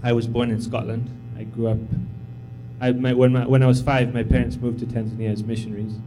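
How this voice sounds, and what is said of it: Unusual mixed accent. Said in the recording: “you can hear I have a strange accent”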